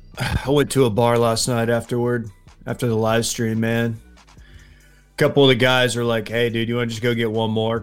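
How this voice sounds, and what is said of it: Slightly raspy voice. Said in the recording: “if my voice is a little raspy,”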